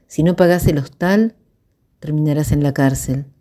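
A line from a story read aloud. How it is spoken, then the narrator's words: Casual voice. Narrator (Spanish): dijo con voz casual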